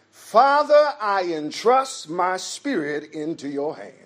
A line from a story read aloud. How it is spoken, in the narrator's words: Jesus shouted